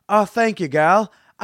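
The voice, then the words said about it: Poor attempt at British accent. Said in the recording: “I can't do a British accent at all... Did I really just attempt a British accent?”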